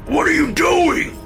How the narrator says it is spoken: Dad screamed

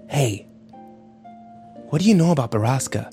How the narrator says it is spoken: Ike whispered to him

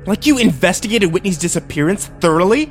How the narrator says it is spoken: I spat

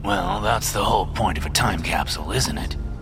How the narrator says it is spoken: grumbles Gideon, struggling to contain his rising annoyance

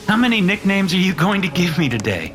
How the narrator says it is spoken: Mitchell asked with a laugh

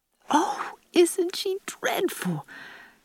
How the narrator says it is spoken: gasped Diana

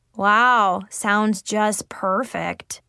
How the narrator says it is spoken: Zoe replied sarcastically

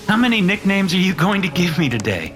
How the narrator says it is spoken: Mitchell asked with a laugh

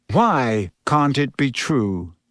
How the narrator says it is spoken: Lupin said calmly, as though they were in class and Hermione had simply spotted a problem in an experiment with Grindylows

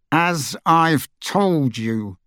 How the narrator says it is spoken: he said through gritted teeth

